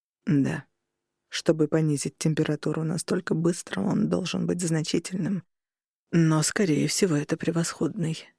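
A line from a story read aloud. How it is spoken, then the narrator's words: Calm and clear. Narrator (Russian): спокойно и четко ответил Роган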